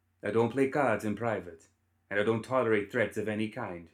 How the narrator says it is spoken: she said

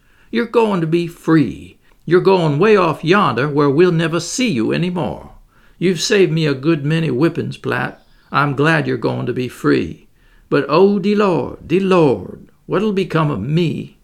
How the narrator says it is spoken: she cried, tears streaming down her face

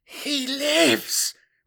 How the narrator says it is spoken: breathed one of the Frataris in wonder

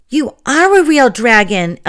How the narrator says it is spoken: Ellie exclaimed

